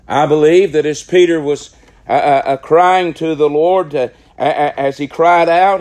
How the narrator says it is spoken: he cried saying

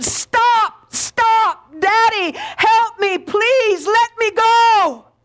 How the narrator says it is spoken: as the needle pierced his son's hand, the boy began to struggle with all of his might, trying to break free, and he screamed

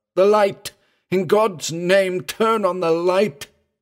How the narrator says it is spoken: Singh cried out in a broken voice of terror

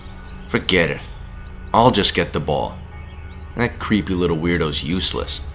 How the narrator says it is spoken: Rob said again

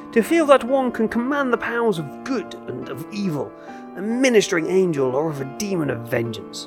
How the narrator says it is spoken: cried

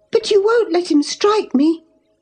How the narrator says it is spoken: she cried

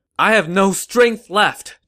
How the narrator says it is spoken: Zhuge Zhan shouted

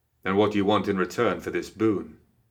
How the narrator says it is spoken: Marcus asked

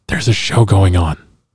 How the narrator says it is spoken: whispered again

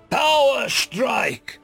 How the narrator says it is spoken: Parker roared

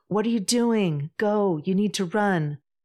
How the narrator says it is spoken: Incredulous, shouts back

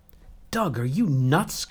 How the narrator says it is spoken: cried Seridwan

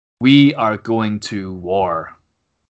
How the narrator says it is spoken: He says very slowly, very clearly, very forcefully

